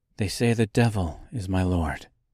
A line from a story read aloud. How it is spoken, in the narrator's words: she said coldly